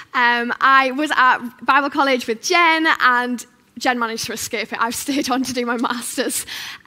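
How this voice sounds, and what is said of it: Northeast English accent. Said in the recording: “you might be able to tell from my accent, I'm not from around here. I am from the northeast. I am from a place called Stockton on Tees.”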